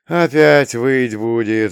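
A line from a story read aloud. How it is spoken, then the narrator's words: Sigh. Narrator (Russian): вздохнул чувак со сломанными руками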